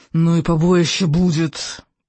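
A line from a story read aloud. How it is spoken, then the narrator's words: Malicious creature hissing. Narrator (Russian): прошипел Слизняк, дракон Письедуха, уродливый Громмель, с носом картошкой и весьма злобным нравом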